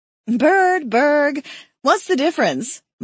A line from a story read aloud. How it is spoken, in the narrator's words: Molly laughed